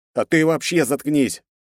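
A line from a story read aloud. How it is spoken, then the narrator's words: Barked in unison. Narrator (Russian): рявкнули мы вместе на Пэта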